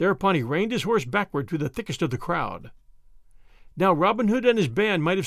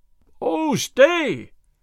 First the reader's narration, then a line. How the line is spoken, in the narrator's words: shouted Will Stutely